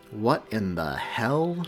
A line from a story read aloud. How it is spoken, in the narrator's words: Seamus breathed